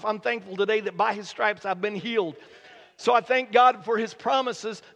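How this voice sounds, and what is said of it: Voice strained from a lingering cough. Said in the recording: “you can tell from my voice this morning, that over the past several weeks, I've been really kind of struggling and dealing with a cough”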